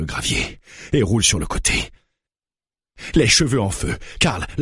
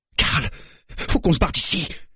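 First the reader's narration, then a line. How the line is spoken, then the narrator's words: Yelling. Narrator (French): hurle-t-elle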